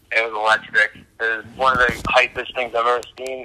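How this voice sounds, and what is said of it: Hoarse, worn-out voice. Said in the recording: “As you can tell, my voice is a little gone right now. I'm yelling so much.”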